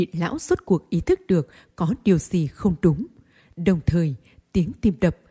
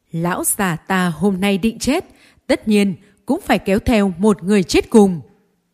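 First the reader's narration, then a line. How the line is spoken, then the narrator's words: Laughing loudly. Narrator (Vietnamese): Hách lão tiếp tục cười lớn, nói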